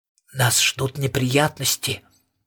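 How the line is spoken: Quiet question. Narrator (Russian): тихо спросил Престон

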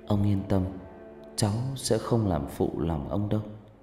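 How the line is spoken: Soft, quiet. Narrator (Vietnamese): Cô cúi đầu khẽ nói với ông

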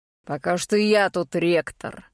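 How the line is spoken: Dragon's growling reply. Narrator (Russian): рыкнул дракон в ответ

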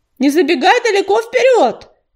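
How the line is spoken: Called out after. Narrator (Russian): крикнул ей вслед Ежевика

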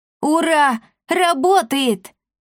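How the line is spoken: Boy's joyful shout. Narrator (Russian): радостно закричал мальчишка

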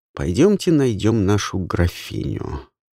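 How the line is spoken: Plain. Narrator (Russian): сказал инспектор Каролине

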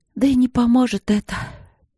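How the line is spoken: Sighing. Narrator (Russian): она вздохнула

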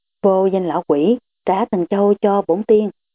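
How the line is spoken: Hissing, furious old man. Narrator (Vietnamese): Thần nhãn tổ đào quỷ long lên sầm sọc, lão rít giọng nói

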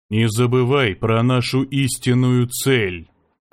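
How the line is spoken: Even but threatening tone. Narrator (Russian): сказал ровным, но угрожающим тоном

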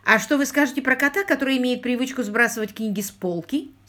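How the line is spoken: Plain. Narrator (Russian): спросил Квиллер

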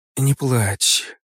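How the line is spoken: Mother's whisper. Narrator (Russian): шептала ее мать Субира

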